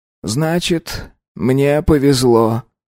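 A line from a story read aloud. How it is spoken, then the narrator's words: Creaky voice. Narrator (Russian): проскрипел дознаватель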